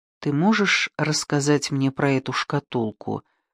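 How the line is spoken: Gentle question. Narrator (Russian): мягко спросила она

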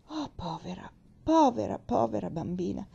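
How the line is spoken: Sighed again. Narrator (Italian): Sospirò ancora Pendleton

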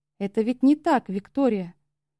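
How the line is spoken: Gentle. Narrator (Russian): мягко сказал Феникс

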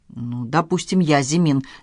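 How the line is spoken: Hostile, through gritted teeth. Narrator (Russian): неприязненно процедил Павел

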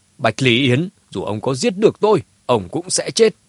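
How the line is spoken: Fearless loud laughter. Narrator (Vietnamese): Phùng Chí Viễn không hề sợ hãi, đột nhiên ha hả cười lớn

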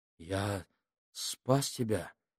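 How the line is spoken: Muttered. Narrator (Russian): пробормотал Минхаус

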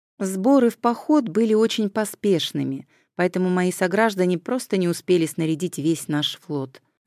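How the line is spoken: Plain. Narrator (Russian): ответил Фемистокл

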